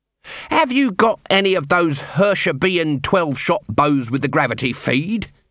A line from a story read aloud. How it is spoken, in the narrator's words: he snapped